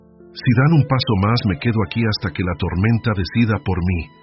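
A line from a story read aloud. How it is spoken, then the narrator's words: Shouted. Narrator (Spanish): gritó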